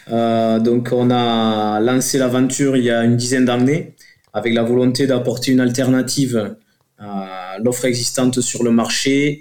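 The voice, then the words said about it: Southern French accent. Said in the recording (French): “on est au sud de Toulouse, ça s'entend avec mon accent”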